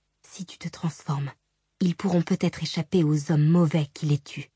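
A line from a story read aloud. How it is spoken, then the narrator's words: Whispering. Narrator (French): chuchota Shallan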